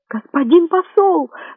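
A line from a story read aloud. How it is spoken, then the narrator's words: Shrill squeal. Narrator (Russian): взвизгнул Магнан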